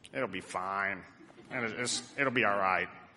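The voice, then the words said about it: Imitation of a man's voice. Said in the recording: “that's a fairly good impression of him too”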